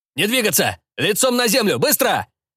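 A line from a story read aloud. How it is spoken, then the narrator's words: Police officer shouting. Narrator (Russian): закричал полицейский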